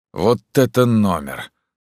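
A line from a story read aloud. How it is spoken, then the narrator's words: Sigh. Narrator (Russian): вздохнул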